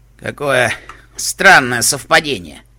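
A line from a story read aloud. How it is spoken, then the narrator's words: Sighing. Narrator (Russian): вздохнул Сэндбокс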